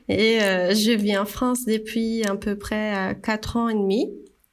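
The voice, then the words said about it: Slight Brazilian accent in French. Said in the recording (French): “je suis brésilienne. Là, euh, on entend ce petit accent.”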